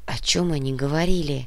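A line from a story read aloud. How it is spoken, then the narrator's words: Whisper. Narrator (Russian): прошептала Сана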